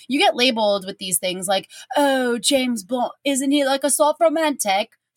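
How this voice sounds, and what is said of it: Put-on accent while quoting. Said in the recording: “I don't control the accents. They just come out.”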